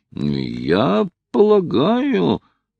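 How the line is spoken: Torn, mumbling. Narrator (Russian): промямлил Хайрам, раздираемый двумя чувствами

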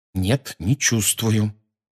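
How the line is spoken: Through clenched teeth. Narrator (Russian): сказал Гарри сквозь зубы

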